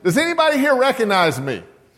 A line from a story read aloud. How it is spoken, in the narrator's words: finally just stopped and asked loudly